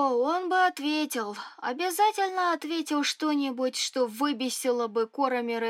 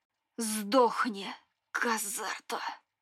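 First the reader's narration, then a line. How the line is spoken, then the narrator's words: Hiss, barely restrained emotion. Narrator (Russian): Некромант окаменел и, бледнее, прошипел с плохо сдерживаемыми эмоциями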